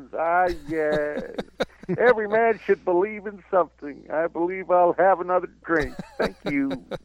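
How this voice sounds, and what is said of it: Imitates another person's voice. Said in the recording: “that's not a bad W.C. Fields impression”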